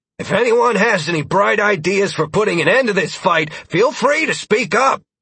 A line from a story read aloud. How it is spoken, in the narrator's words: Alistair shouted in an uncharacteristic display of anger and frustration